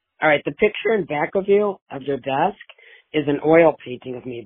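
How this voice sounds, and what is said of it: Hoarse, nearly lost voice. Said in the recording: “Excuse my voice. I may have lost my voice... I sound scary”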